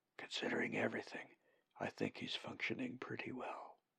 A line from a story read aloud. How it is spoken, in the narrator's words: Zack whispered back